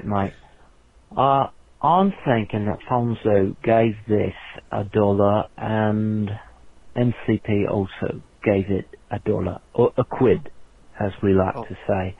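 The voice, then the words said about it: Exaggerated South London British accent. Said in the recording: “my dirtiest British accent... from the south of London”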